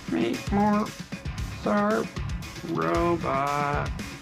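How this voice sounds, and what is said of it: Bad robot voice. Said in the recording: “do the robot voice ... That's a terrible robot voice.”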